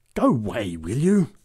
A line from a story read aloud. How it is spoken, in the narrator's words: growled the big woman